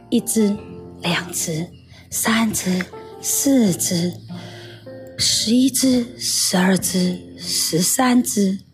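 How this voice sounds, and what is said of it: Quiet, soft counting voice. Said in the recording (Chinese): “小小声的数着”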